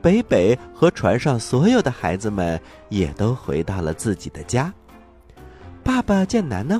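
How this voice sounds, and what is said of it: Usual voice. Nothing is said of it.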